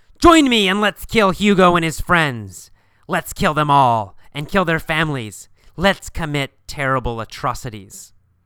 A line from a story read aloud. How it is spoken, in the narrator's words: He'll yell